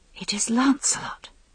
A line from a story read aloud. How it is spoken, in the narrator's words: said Guinevere breathlessly